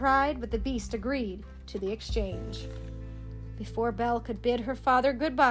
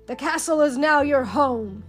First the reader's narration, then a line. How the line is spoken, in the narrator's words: he said gruffly